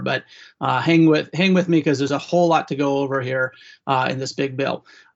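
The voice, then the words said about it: Slightly hoarse voice. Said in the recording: “I'm recovering from a cold, so I'm a little bit hoarse”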